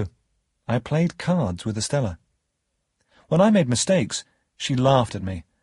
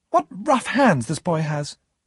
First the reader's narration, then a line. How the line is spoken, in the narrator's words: Estella exclaimed